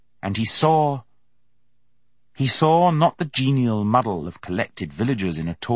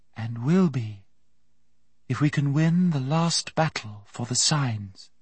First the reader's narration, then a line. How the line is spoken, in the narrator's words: she said in her soft, clear voice